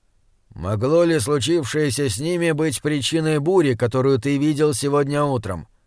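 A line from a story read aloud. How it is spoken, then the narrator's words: Grim question. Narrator (Russian): спросил принц мрачно, как будто услышал дурные вести, которых давно ждал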